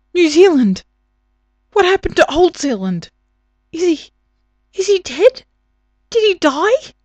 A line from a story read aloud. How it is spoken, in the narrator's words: He sucked in a breath and then blurted